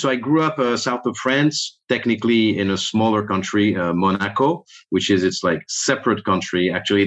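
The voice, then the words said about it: French accent. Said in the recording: “I'm not American. I'm French... So you may hear that in that accent.”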